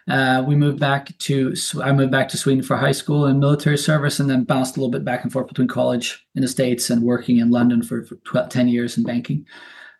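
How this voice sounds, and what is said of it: American twang. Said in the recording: “I have the American twang.”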